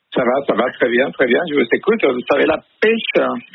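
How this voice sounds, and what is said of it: Sing-song Mexican Spanish accent. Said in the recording (French): “un accent de quel... De l'Espagne... Ça vient de Mexico... c'est presque comme l'Espagne, c'est chantant. C'est le soleil dans la voix”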